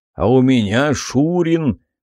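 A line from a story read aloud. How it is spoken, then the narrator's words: Booming voice, stocky man. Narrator (Russian): прогудел какой-то приземистый мужичок с густыми усами и выступающим вперед пузом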